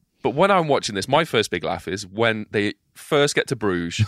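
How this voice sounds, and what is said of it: Usual voice. Nothing is said of it.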